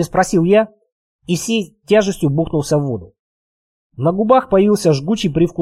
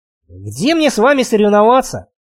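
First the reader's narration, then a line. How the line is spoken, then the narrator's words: Loud seal-like snort. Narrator (Russian): Веня громко фыркнул, будто тюлень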